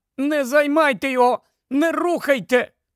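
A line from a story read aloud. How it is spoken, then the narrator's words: Exclaiming. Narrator (Ukrainian): Герміона вигукнула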